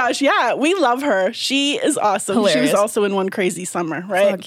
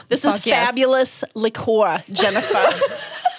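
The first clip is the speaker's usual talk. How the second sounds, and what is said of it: Put-on New Jersey accent. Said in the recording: “That was pure Jersey.”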